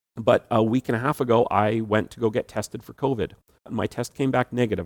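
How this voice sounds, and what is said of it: Slightly raspy voice. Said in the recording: “tell by my voice, I'm a little raspy ... just a normal common cold that I'm still got a little bit of a raspy voice from”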